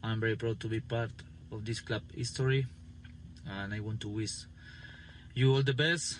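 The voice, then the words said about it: Speaks English with an accent. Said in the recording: “I'll miss that accent.”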